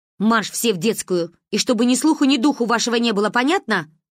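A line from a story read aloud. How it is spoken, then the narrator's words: Barking. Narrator (Russian): рявкнула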